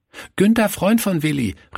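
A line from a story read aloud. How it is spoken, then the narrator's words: Calling out. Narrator (German): rief er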